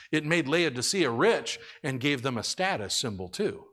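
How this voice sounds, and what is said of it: Usual voice. Nothing is said of it.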